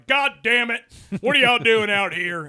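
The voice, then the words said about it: Stern scolding dad voice. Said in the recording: “I gave them the old dad voice”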